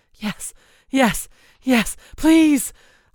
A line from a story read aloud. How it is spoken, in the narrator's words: I cried as the waves of pleasure swept over me